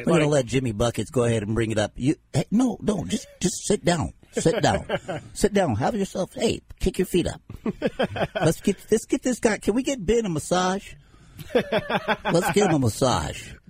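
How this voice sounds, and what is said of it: Funny put-on voice. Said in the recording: “That is a funny voice that you're doing right there.”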